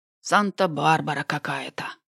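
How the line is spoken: Investigator's noisy exhale. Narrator (Russian): Шумно выдохнул следователь

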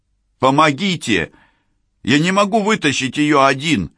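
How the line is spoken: Man shouting. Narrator (Russian): Обращаясь к Беллу и Сакс, крикнул мужчина

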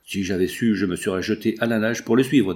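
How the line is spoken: Plain. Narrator (French): dit Alain

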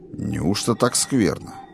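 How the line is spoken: Grumbling. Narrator (Russian): проворчал

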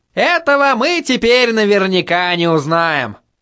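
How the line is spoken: Chuckling. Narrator (Russian): хохотнул Ханс

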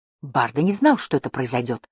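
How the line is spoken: Angry. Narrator (Russian): сердито заговорил он

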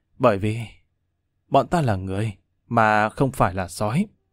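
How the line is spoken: Weary, grave, soft. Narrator (Vietnamese): Lâm Văn Vinh uể oải thở dài, vô cùng nghiêm trang, cắn răng khẽ nói

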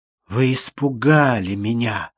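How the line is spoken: Hoarse voice. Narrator (Russian): ответил хриплый голос Джудит Уолкер

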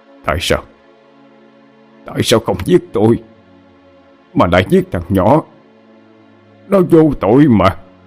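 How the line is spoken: Tearful muttering. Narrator (Vietnamese): Hai hàng nước mắt tưởng như đã khô cạn, bây giờ lại tuôn trào ra, miệng lẩm bẩm nói

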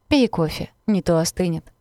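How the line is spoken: Laughing. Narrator (Russian): рассмеялся

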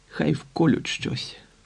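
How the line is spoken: Weak whisper. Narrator (Ukrainian): прошепотів безсило

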